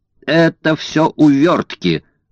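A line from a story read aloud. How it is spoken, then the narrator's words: Shout. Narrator (Russian): закричал Стэмп Проктор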